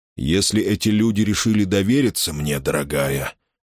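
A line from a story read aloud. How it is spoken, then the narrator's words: Gentle objection. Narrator (Russian): мягко возразил ее отец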